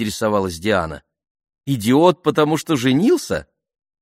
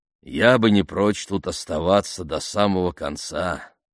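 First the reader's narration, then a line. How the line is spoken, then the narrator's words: Sergeant grumbling. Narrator (Russian): пробурчал сержант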